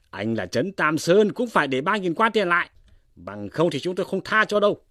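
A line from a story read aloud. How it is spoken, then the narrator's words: Glaring shout. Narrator (Vietnamese): 3 hảo hán chừng mắt quát lên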